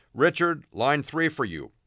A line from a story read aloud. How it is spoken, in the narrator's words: One of the other reporters called out